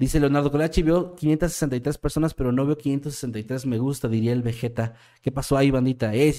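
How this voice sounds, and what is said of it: Usual voice. Nothing is said of it.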